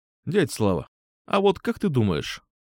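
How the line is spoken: Thoughtful. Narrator (Russian): задумчиво произнес я

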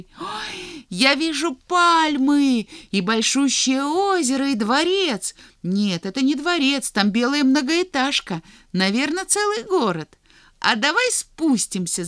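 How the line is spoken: Shout. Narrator (Russian): закричал Санька

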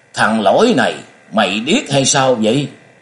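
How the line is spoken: Loud angry shout. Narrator (Vietnamese): Lão kia biến sắc lớn tiếng quát

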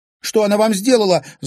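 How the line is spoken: Angry shout. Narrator (Russian): злобно крикнула Женя

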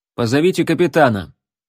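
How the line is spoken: Firm voice. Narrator (Russian): твердым голосом сказал Джон

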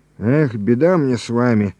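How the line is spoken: Wheeze. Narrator (Russian): хрипит Обножкин

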